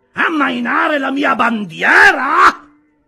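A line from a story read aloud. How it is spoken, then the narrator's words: Captain shouting. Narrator (Italian): gridò il capitano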